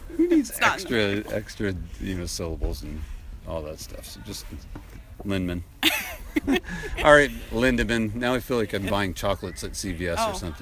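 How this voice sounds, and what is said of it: Northeast US accent. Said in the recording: “the laziness in my Northeast accent”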